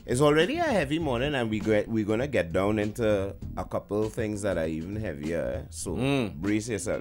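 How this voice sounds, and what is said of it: Trinidadian accent. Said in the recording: “Trini accent”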